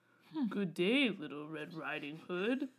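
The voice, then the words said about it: Wolf character voice. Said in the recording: “Thank you for having a voice for the wolf.”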